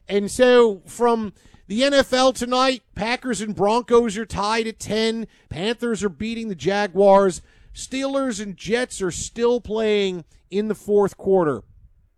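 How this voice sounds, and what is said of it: Put-on Philadelphia/Pennsylvania accent. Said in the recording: “his Philly accent ... it's a greater Pennsylvania accent. It's Pittsburgh. It's Philadelphia.”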